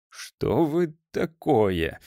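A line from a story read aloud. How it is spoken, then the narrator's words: Mumbled. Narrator (Russian): промямлило существо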